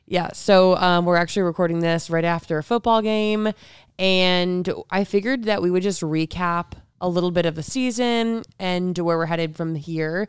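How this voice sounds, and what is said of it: Sick-sounding voice. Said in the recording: “if you can't tell by my voice, I'm sick.”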